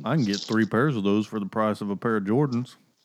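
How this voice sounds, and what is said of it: Exaggerated hick country accent. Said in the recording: “you put on your hick voice.”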